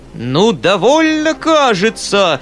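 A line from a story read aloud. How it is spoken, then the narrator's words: Shouting. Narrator (Russian): закричал Фома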